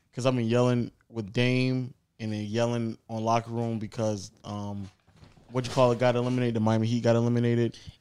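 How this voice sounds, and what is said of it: Hoarse, nearly lost voice. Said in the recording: “I can't troll because my voice is gone... So I just been yelling for like 3 or 4 days.”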